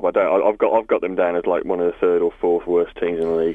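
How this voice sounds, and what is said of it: Midlands, Birmingham-area English accent. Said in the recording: “I thought you're not a Villa fan then ... with that accent”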